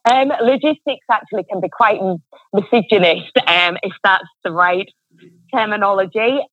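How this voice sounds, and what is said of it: English accent. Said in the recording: “that lovely English accent”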